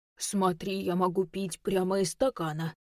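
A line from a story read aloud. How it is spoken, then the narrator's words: Deep, mock-breaking teen voice. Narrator (Russian): пробасила Женя, имитируя сломанный голос подростка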